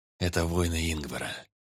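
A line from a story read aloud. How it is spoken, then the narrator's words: Gloomy. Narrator (Russian): мрачно кивнул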